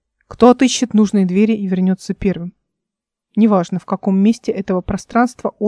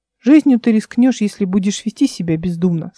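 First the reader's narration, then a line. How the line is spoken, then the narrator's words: Plain. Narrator (Russian): сказал владыка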